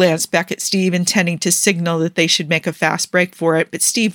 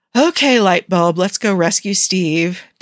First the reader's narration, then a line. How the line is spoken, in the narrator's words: Tony sighed